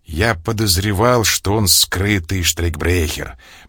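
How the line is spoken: Grumbling from a corner. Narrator (Russian): проворчал из своего угла Дон Теодор

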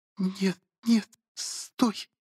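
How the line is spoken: Pleading. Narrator (Russian): взмолилась

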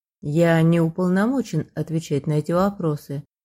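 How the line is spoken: Quiet. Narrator (Russian): все так же тихо проговорил мужчина

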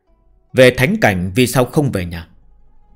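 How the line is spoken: Cold voice. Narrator (Vietnamese): cất giọng lạnh lùng nói

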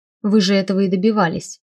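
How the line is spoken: Snapping retort. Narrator (Russian): огрызнулась я

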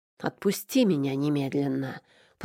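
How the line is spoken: Hissed. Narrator (Russian): прошипела я

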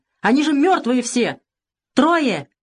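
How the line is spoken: Shouted. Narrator (Russian): Не слушая его, кричал Савелий

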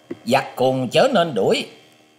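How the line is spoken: Young man's commanding shout. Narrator (Vietnamese): Chàng thiếu niên áo trắng quát lên rằng

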